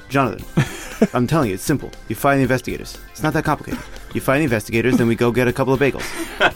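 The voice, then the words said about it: Put-on Italian-New York uncle accent. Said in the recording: “It's like a sort of Italian accent, but yeah, sort of New York. ... I'm kind of doing vaguely like an uncle.”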